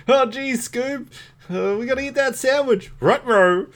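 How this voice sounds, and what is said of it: Cartoon character Shaggy voice. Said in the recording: “my Shaggy impersonation.”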